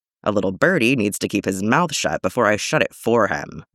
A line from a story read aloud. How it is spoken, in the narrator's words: Bucky grumbles